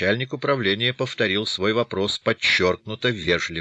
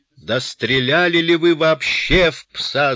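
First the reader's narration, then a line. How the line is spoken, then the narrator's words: Very loud yell. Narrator (Russian): завопил начальник управления так громко, что Лустенвюллер отвел трубку от уха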